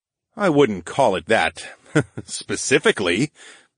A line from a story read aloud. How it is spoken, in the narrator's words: I chuckled